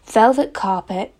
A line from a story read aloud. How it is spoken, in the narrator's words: sighed Anne luxuriously